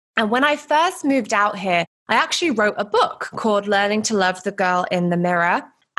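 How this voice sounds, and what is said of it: British accent. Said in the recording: “I'm originally from the UK. I hope you can tell by my accent”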